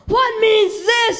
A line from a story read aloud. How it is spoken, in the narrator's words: he roared